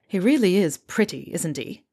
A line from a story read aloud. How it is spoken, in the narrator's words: Fred grumbles